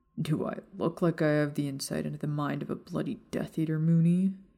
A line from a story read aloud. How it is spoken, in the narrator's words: Sirius growled